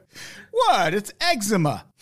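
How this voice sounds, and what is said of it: Put-on British accent. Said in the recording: “Did you like my British accent there?”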